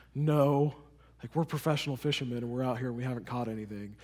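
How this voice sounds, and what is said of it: Sad, dejected voice. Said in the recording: “hear the sadness in their voice”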